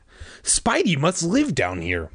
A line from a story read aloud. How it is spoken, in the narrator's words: Michael exclaimed